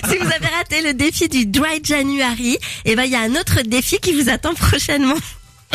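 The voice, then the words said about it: Poor English accent. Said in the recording (French): “j'ai un accent anglais vraiment pourri. J'ai essayé de faire bien, mais je sens que c'est pas ça.”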